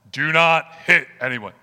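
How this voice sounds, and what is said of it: Stern commanding dad voice. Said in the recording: “I will get my dad voice on that one.”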